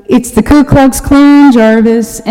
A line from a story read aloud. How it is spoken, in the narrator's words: they're all yelling and complaining and blaming